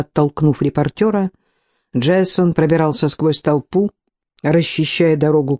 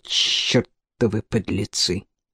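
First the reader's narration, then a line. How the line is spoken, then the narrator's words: Muttering. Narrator (Russian): он пробурчал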